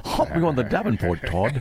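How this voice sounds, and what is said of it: Poorly done put-on regional accent. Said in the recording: “he's not exactly nailing the accent ... because it's horrible”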